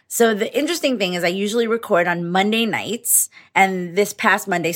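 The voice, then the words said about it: Slightly hoarse, congested voice. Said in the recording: “my voice is a little bit hoarse and I'm a little bit congested”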